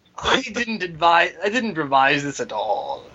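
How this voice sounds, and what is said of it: Slight put-on English accent. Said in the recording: “You gotta say that with a slight hint of an English accent ... We do awful attempts at English accents”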